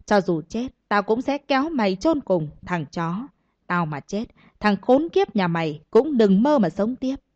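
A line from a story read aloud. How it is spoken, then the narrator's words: Furious roar through gritted teeth. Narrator (Vietnamese): Tức giận ... từng lời từng chữ như rít qua kẽ răng gầm lên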